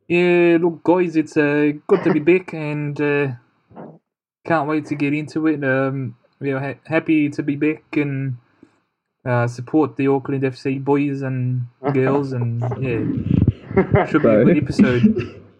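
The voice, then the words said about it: Kiwi accent. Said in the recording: “I've missed your accents... You've already dropped a Kiwi accent.”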